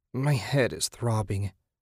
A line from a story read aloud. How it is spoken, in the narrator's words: Susan moaned